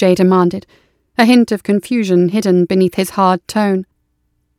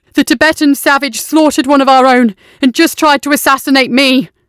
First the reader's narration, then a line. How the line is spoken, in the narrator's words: Covered in blood and clenching his self-inflicted wound, screaming